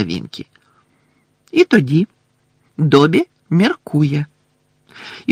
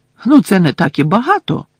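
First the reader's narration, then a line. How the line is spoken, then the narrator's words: Indignant exclamation. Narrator (Ukrainian): обурено вигукнула з підлоги Герміона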